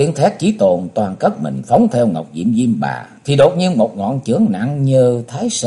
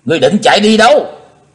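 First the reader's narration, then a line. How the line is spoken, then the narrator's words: Loud shout. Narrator (Vietnamese): hét to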